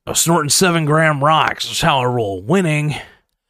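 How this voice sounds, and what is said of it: Charlie Sheen impression. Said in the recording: “I think I could do a good Charlie Sheen impression. ... I love doing Charlie Sheen impressions.”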